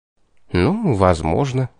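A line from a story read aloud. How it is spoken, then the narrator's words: Flustered. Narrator (Russian): смешался я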